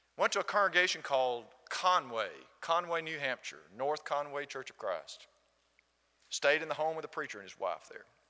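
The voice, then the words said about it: Southern American accent. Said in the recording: “This gentleman heard my accent ... It's called Southern ... I'm from Alabama”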